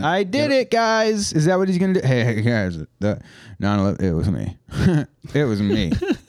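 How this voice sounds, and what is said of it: Imitates another person's voice. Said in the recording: “That was a reasonable impression. ... your voice didn't sound like him, but the cadence is pretty good ... that was pretty reasonable.”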